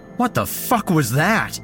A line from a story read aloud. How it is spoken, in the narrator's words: shouted